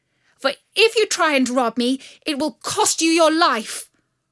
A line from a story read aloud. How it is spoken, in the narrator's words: called out